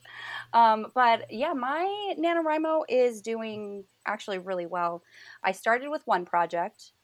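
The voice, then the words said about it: Rough voice from a cough. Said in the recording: “excuse my voice. I have a cough”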